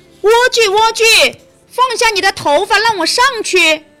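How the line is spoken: Witch calling upward. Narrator (Chinese): 巫婆走来，听到她朝上面叫喊

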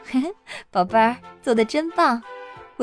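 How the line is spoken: Warm laughing. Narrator (Chinese): 妈妈笑了

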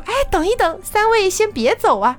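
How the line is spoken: Clear voice, three mouths smiling. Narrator (Chinese): 字正腔圆的声音……怪人的三张脸上有三只嘴巴，也在一起微笑

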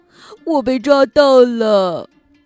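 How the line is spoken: Giggling. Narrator (Chinese): 布茨咯咯咯地笑着说

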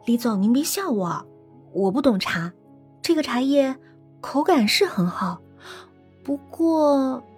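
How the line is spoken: Playful laugh. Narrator (Chinese): 他忽然顽皮的一笑

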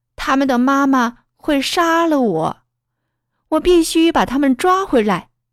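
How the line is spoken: Shouting. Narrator (Chinese): 小胡喊了起来

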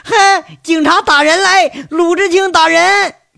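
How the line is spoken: Wailing, cursing shouts. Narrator (Chinese): 张年贵是哭爹喊娘，嘴里不干不净，还骂着喊着

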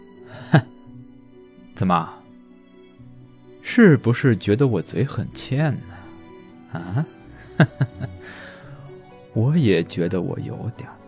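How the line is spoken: Teasing laugh, mocking question. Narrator (Chinese): 大块头忍不住轻笑了一声，故意反问道

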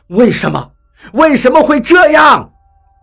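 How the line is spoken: Loud echoing roar. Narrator (Chinese): 吼声很大，在溶洞中立刻传来回响

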